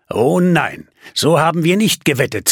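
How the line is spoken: Hissed into ear. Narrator (German): zischte er ihr ins Ohr

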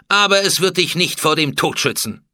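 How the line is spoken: Cold. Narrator (German): sagte Hatschepsut kalt

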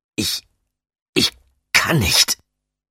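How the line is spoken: Stammering reply. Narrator (German): gab Damien abermals stammelnd zurück

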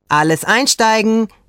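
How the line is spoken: Calling out. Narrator (German): rief Antonella

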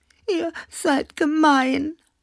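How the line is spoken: Sobbing. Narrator (German): schluchzte Klaus Teddy

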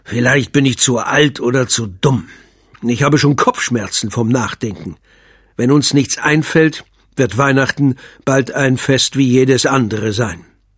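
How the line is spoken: Growling. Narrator (German): Der Weihnachtsmann knurrte

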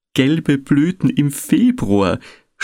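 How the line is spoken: Groaning. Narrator (German): stöhnte

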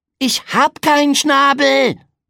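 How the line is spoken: Roared. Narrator (German): brüllte Pegeldi

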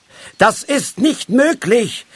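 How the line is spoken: Called out. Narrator (German): rief er

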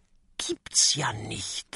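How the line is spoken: Whisper. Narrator (German): flüstert Kokosnuss

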